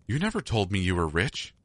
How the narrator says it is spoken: I exclaimed

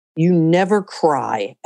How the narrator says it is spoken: Alex says, and his voice is savage

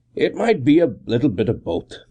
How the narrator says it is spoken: I answered

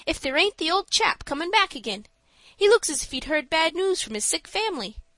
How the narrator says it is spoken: he exclaimed suddenly

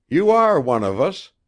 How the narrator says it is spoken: cried Wabi

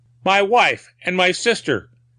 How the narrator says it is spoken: he cried

